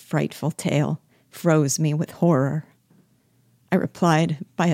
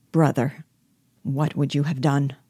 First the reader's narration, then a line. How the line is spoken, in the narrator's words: asked me coldly